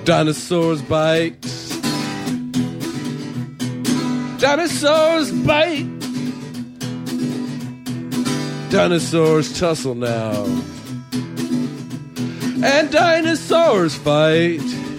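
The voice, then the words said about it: Thrashed, worn-out singing voice. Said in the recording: “My voice is really thrashed.”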